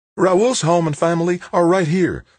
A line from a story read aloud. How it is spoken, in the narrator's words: Holly snapped